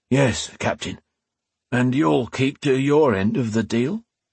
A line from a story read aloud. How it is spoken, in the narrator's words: Garn asked, an uncertain, almost pleading tone in his gruff voice